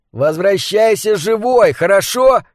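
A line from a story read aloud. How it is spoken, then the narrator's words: Shouting. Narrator (Russian): крикнул он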